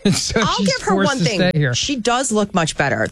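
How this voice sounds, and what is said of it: Usual voice. Nothing is said of it.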